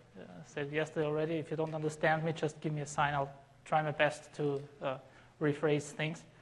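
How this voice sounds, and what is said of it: Non-native English accent. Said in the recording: “As you can maybe tell from my accent, I'm not a native speaker in English”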